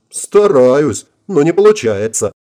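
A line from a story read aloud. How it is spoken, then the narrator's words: Laughing. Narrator (Russian): расхохоталась Вильямс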